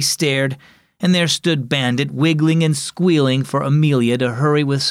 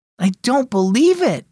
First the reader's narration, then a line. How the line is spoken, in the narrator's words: exclaimed Ruby